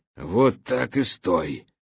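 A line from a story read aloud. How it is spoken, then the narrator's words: Hoarse rasp. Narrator (Russian): прохрипел ему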